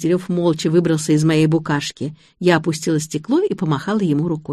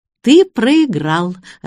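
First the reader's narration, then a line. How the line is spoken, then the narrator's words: Joyful announcement. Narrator (Russian): радостно объявила я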